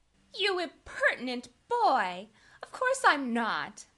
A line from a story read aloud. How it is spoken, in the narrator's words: exclaimed Sally, with an air that proved the contrary